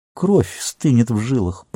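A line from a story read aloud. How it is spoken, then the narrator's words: Muttering. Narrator (Russian): пробормотал Гимли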